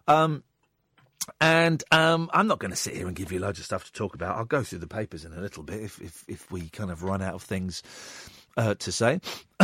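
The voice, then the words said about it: Hoarse, croaky throat. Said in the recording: “I'm a little bit clarty tonight. ... I've got a frog in my throat.”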